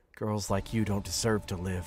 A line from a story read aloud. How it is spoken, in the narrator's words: he muttered